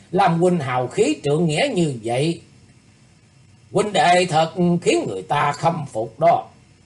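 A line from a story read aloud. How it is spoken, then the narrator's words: Hearty laughing. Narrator (Vietnamese): Mâu Chính Bình ngửa mặt cười phá lên ha hả nói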